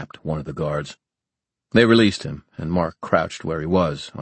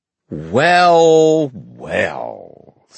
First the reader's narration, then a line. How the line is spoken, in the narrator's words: said a drawling voice